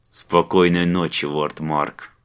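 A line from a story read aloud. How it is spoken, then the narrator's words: Muttered through clenched teeth. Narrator (Russian): Снова процедил тот сквозь зубы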